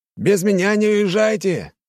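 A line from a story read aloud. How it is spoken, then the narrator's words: Shouted. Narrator (Russian): крикнул нам Егор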